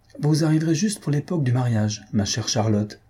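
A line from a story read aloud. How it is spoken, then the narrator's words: Plain. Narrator (French): dit Faustine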